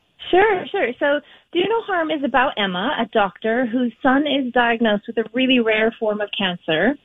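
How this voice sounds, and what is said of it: Mixed accent, Irish-sounding. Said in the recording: “how you say it is so Irish ... your cute mishmash of an accent”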